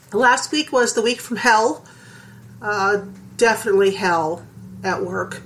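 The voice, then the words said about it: Sick, congested voice. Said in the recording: “I'm sick, if you can't tell by my voice. ... I got the flu on Friday ... Saturday it turned into a cold, and Sunday it turned into bronchitis”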